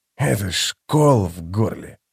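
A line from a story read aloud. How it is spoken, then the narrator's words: Grumble. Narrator (Russian): буркнул он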